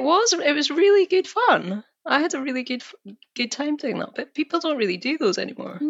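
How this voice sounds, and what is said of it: Usual voice. Nothing is said of it.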